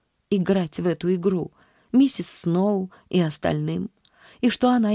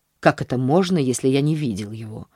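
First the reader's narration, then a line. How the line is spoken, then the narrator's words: Irritated answer. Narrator (Russian): ответил мужчина раздраженно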